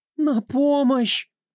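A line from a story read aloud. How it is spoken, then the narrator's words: Woman pleading. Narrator (Russian): Взмолилась незнакомая женщина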